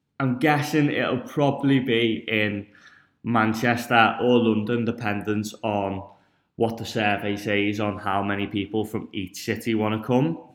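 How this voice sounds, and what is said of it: Northern English accent. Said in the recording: “As you can probably tell from the accent, I am from up north”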